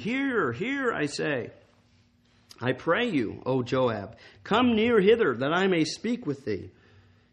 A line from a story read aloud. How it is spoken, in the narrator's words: cried a wise woman out of the city